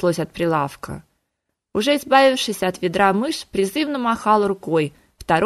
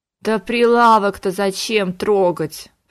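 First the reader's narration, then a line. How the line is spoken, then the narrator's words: Groaning. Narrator (Russian): простонал Конгрэм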